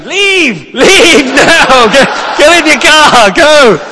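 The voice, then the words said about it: Shouting. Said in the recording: “I'm shouting”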